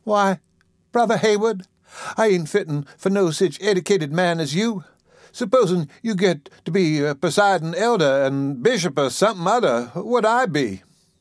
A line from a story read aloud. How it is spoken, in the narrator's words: She picked nervously at her apron, and her eyes sought the floor modestly as she answered